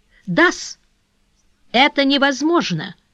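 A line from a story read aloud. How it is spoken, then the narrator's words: Feigned astonished exclamation. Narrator (Russian): воскликнул, отлично разыгравший изумление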